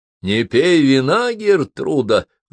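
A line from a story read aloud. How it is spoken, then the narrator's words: Sudden loud. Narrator (Russian): вдруг громко сказала утопленница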